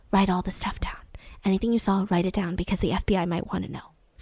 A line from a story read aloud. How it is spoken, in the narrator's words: the flight attendant whispers to the seatmate and says